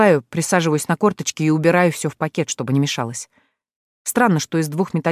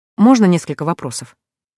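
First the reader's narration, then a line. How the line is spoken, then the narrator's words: Dejected questioning voice. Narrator (Russian): Спрашиваю несвойственным для себя понурым голосом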